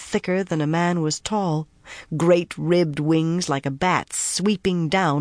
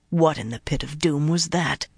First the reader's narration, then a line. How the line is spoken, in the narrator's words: Talanvor muttered in a moment of silence